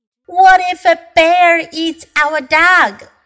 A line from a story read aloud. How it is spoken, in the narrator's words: cried Joanne